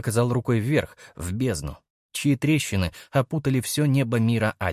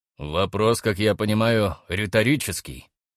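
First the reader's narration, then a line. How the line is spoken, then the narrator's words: Smirking grunt. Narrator (Russian): хмыкнул Хаммер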